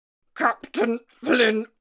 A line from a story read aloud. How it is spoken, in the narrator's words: stammered